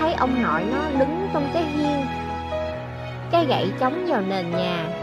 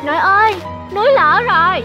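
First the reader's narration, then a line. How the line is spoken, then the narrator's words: Two voices shouting. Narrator (Vietnamese): cả hai nhân vật đều hét lên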